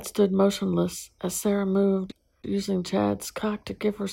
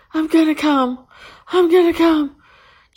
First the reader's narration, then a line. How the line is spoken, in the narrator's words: just before her body went into spasms again as her screams became unrecognizable